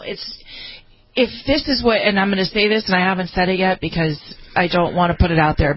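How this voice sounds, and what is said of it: Emotional, tearful voice. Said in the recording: “you can hear the emotion in my voice. I've been crying.”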